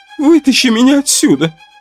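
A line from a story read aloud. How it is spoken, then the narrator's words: Tearful joy. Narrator (Russian): Сквозь слезы радости сказала она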